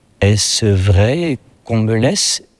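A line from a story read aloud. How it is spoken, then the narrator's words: Slurred, sleep-talking voice. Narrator (French): dit-il d'une voix presque inarticulée, comme si Valjean parlait dans son sommeil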